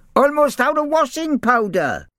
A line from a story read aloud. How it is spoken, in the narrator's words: shouted a rat called Bert